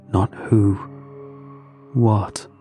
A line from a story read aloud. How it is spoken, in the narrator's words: said, his voice dropping to a whisper